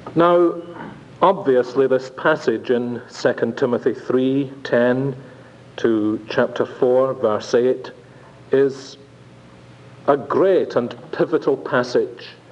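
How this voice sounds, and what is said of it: Strong accent. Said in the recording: “if you can understand my accent for 15 minutes, you will never have any problem with the language requirements”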